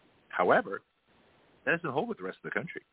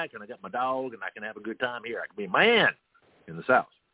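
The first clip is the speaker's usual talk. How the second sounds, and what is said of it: Put-on Southern redneck accent. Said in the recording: “my bad redneck ... Southern ... accent”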